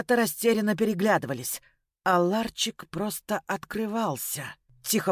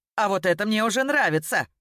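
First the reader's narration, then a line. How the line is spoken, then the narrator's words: Smirking. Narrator (Russian): хмыкнул Ян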